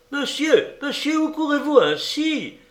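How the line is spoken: Alarmed exclamation. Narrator (French): s'écriait Thérèse effarée

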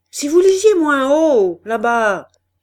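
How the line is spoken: Shouted, cashier. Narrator (French): cria le caissier

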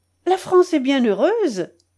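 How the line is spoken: Cheerful. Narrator (French): dit Leven gaiement

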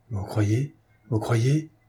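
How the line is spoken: Trembling voice. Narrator (French): fit Gilbert d'une voix tremblante

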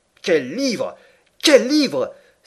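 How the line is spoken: Exclaiming. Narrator (French): s'écriait-il

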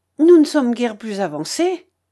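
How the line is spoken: Exclaimed. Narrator (French): s'écria Marguerite

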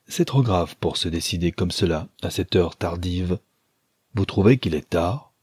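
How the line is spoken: Cold reply. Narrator (French): Elle répondit froidement

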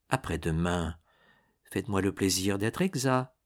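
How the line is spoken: Low voice, late night. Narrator (French): dit Louise à 1 heure du matin et à voix basse à Lucien

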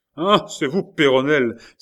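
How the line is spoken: Old man, furious shout. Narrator (French): s'écria le vieillard bouillant de colère

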